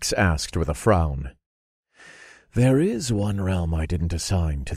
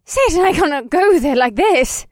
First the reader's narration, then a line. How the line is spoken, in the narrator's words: Marina screeched